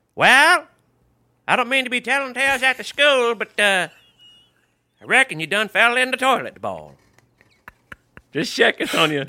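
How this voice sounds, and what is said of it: Put-on Alabama Southern accent. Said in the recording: “You got to do it with the Alabama accent, though. ... That's everybody in Alabama talks that way.”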